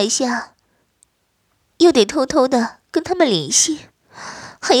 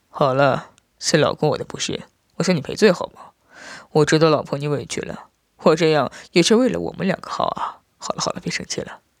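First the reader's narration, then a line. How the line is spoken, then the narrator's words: Tender soft voice. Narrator (Chinese): 我爱怜的 轻声道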